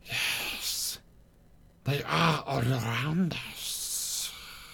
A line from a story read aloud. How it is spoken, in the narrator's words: he whispered